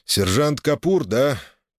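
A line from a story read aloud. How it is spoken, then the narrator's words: Heavy sigh, then speaking. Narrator (Russian): Тяжело вздохнув, проговорил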